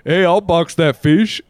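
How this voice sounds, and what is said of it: Imitates another person's voice. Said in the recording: “It's hard to do your accent.”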